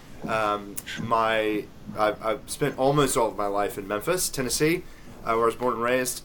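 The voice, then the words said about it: Slight Southern US accent. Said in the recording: “you sound like you know you're you're you're from North America ... little maybe Southern accent there”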